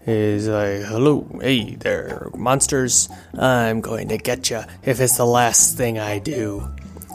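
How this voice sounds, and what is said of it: Creepy voice, poor imitation of another person. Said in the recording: “creepy voice ... that's a terrible Vincent Price impression”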